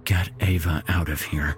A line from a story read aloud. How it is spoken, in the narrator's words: He whispered